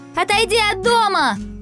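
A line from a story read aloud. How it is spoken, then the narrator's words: Shout from above. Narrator (Russian): сверху крикнула Светка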